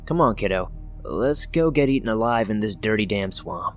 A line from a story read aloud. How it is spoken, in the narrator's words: Mom grunted